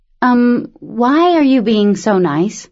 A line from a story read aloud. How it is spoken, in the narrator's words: The girl laughed, sighed